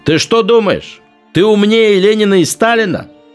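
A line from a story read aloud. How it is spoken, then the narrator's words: Shouting. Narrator (Russian): кричал он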